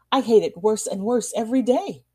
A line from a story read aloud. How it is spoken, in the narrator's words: cried Randolph